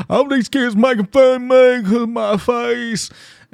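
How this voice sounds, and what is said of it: Imitates another person's voice. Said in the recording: “this is literally how he talks. I'm not doing a bad impression.”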